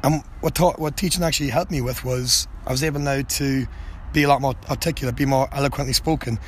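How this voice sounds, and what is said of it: Thick accent, slightly raspy voice. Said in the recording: “trying to pick up my accent ... my throat's a little bit raspy ... I spoke quite fast and I had a thick accent”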